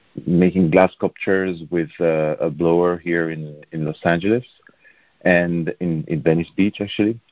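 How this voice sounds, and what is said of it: European accent. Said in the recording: “I'm obviously from Europe, as you can tell from my accent.”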